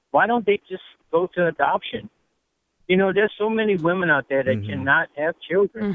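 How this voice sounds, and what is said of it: Louisiana accent. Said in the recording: “Love your accent, by the way, if I could just tell you that Louisiana accent.”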